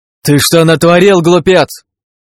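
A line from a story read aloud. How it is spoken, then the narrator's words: Angry yell. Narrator (Russian): завопил тот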